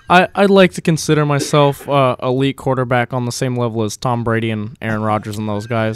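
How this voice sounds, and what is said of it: Imitates another person's voice. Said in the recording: “your Eli impersonation”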